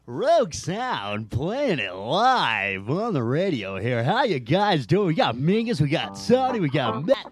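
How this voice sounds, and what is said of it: Cheesy radio DJ voice. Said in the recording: “let me get my cheesy radio voice”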